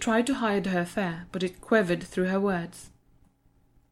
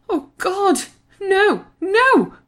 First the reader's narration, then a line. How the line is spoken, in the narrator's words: screeched Joanne